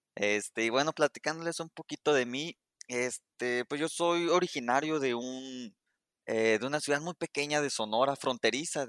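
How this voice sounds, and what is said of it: Northern Mexican Spanish accent. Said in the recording (Spanish): “te, noto el acento, eh ... tú eres del norte”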